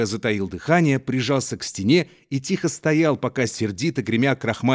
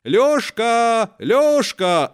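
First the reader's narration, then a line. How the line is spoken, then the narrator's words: Shout. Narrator (Russian): закричала кухарка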